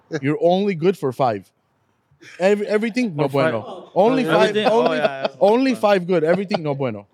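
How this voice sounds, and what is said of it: Put-on accent, broken English. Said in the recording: “You have to put a little accent in there.”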